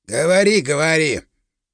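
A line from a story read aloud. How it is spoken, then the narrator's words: Grumbling. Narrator (Russian): пробурчал работяга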